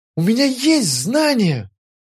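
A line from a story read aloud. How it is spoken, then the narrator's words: Exclaimed. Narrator (Russian): воскликнул я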